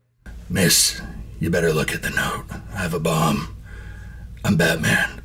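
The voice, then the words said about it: Batman voice from Lego movie. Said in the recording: “I sound like Batman from the Lego movie ... You do sound like Batman from the Lego movie.”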